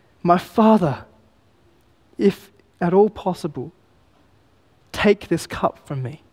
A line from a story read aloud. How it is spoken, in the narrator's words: cries to his Father, saying